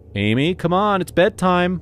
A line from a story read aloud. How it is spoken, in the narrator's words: I called out